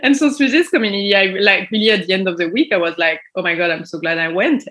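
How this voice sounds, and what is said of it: Non-native English accent. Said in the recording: “sorry for my English. If I kill it a little bit, you can just enjoy the accent.”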